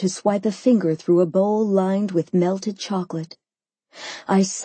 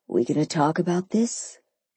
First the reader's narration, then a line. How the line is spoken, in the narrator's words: he asked quietly